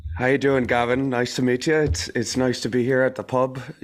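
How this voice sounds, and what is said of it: Put-on Irish pub accent. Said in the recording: “really good at voices ... good at impersonation ... talk to Gavin like you might meet him down at the pub ... out somewhere in Ireland”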